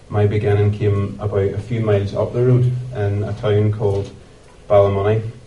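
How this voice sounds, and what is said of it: Northern Irish accent. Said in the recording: “this culture accent that I'm rocking”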